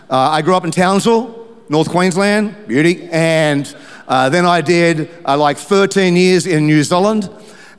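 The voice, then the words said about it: Mixed, not pure Queensland accent. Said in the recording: “my accent ... it's not a pure Queensland accent. It's a little bit of a mongrel accent.”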